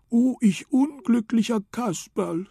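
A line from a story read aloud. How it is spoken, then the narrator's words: Sobbing. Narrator (German): schluchzte er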